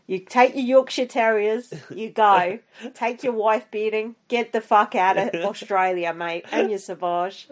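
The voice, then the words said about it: Put-on Australian accent. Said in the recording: “your Australian accent is on fire today”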